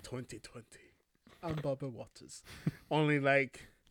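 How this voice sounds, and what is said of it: Jamaican-tinged bad British accent. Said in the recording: “sound like a Jamaican guy doing a bad British accent?”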